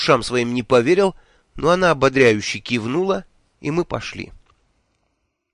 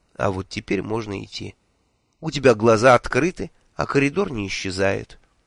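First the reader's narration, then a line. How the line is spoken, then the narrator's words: Calm. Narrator (Russian): Миламари спокойно сказала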